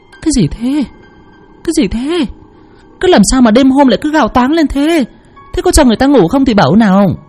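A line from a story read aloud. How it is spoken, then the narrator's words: Startled confused woman asking. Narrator (Vietnamese): Tiếng thét của lão Tốn làm mụ vợ hoảng hồn bật dậy, còn chưa kịp hiểu đầu đua tai nheo ra làm sao, đã hỏi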